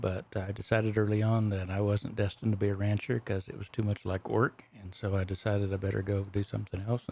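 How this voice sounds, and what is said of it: Texas Panhandle accent. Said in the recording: “I grew up on a ranch in the Panhandle of Texas. That's where my accent comes from.”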